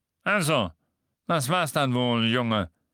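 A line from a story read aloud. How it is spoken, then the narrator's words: Grumbled. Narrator (German): brummte Harry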